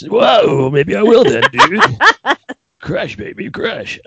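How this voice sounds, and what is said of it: A turtle character voice. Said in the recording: “put on the turtle voice”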